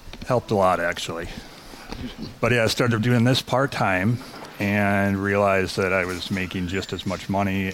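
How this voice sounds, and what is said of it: Smooth radio announcer voice. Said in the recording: “radio voice ... It's a good one.”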